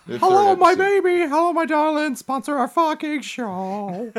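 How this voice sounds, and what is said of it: Comedic put-on character voice. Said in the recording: “doing this voice ... all of your impressions”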